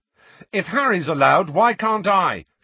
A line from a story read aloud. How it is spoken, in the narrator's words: shouted Ron